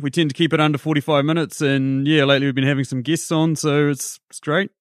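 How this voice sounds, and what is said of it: New Zealand accent. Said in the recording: “as you can gather by my accent, as we've discussed, I'm from New Zealand”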